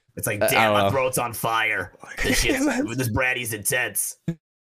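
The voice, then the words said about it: Raspy old smoker voice. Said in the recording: “all of a sudden you become a 50-year-old smoker. What was that voice? ... That was like a smoker voice, not an alcohol voice. Like you sounded like you had a stoma.”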